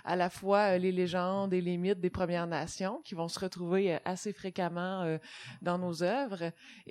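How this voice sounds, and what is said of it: Québécois French accent. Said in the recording (French): “vous êtes en train d'entendre mon accent québécois”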